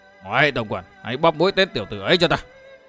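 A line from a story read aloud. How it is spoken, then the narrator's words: Cold, old man. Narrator (Vietnamese): Hắc Thạch bảo chủ đứng im bất động và lão lạnh lùng nói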